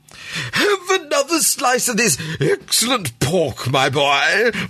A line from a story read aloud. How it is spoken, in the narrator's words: roared Sir Francis